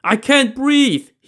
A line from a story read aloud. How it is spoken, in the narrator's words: screamed